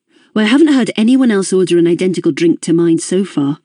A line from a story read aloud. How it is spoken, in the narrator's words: said firmly